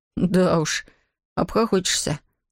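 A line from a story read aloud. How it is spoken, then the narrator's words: Dejected sigh, young man. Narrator (Russian): удрученно вздохнул юноша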